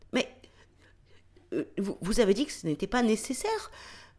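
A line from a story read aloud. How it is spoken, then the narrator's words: Embarrassed stammering. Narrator (French): bafouille-t-elle en rougissant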